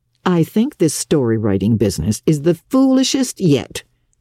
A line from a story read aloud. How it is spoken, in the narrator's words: scoffed Marilla